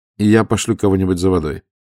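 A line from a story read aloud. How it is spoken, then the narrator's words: Plain. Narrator (Russian): сказал он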